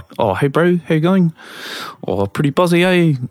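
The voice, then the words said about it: Imitated New Zealand accent. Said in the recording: “the New Zealand accent kind of just sounds a bit like this, where they just, they kind of have a couple of marbles in their mouth”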